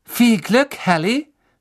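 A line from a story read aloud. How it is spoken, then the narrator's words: Calling out. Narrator (German): rief Cho Chang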